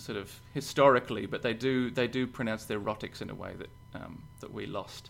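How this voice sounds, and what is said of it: Australian accent, slightly Irish-sounding. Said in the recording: “I've kind of had this weird sort of accent that's still an Australian accent. The vowels are all still Australian. It's just sort of fucked Australian... It sounds almost Irish.”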